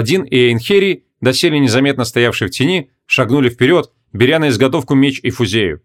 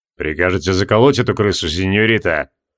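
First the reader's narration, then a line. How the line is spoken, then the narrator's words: Deep bass voice. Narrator (Russian): пробасил Миллениан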